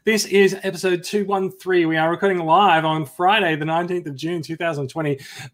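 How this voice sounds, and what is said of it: Australian accent. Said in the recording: “in Australian accents”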